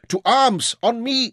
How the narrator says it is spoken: shouted before he was fully awake

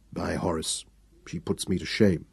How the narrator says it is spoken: he muttered

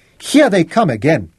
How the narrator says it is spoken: Raleigh shouted

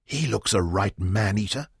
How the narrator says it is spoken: Bobby whispered

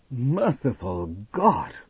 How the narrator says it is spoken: Hal cried

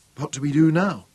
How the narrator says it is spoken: Robin asked

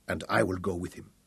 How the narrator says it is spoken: said Aberle quietly

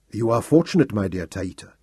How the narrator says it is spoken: my Lord Intef murmured in my ear

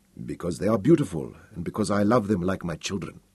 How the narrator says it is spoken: said Aberley softly

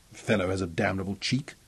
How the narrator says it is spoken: he growled fiercely to Robin

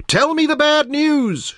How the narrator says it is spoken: yelled

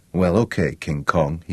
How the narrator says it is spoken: he murmured

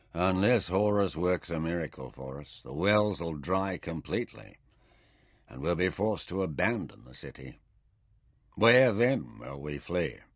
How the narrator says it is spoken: Hilto summed up gloomily

